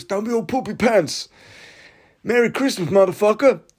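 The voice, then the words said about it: David Goggins impression. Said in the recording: “my David Goggins impression”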